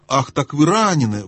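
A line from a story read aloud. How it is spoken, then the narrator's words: Exclamation. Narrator (Russian): воскликнула Люси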